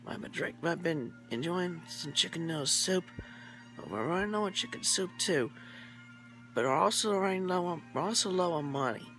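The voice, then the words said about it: Whispering with a sick throat. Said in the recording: “I am sick with a cold in my throat and I am currently unable to talk above a whisper... not being able to speak above a whisper”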